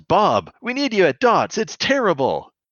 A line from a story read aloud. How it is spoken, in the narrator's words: he's a child of about 10 he yells